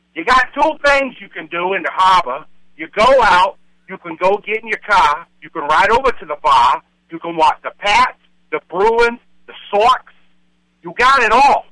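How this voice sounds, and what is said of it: Put-on Boston accent. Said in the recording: “give me your best Boston accent”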